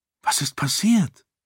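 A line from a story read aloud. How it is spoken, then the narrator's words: Fearful question. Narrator (German): fragte sie ängstlich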